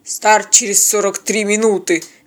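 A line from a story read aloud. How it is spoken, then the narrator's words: Curt grumble. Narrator (Russian): без приветствия буркнул казак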